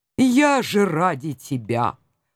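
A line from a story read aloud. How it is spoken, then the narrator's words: Dejected mutter. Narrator (Russian): упавшим голосом пробормотал котик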